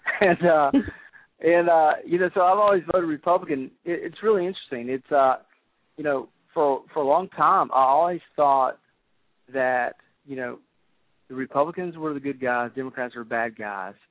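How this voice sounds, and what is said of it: Southern US accent, South Carolina. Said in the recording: “I was raised in the Midlands of South Carolina. That's why I have this accent.”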